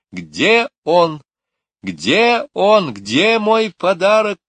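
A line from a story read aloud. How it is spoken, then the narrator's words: Shouting. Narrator (Russian): кричала она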